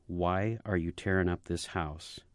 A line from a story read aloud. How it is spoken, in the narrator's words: she asked in a soft yet insistent voice